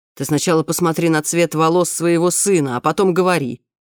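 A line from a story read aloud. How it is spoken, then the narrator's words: Grumbling. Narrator (Russian): проворчал он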